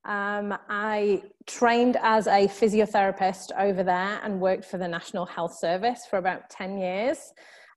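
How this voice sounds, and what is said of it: British accent. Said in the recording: “you can probably tell from my accent that I am from the UK originally”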